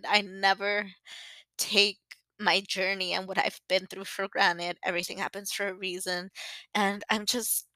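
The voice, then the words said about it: Teary, emotional voice. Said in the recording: “I get all teary-eyed, ... I didn't even think I was going to get emotional”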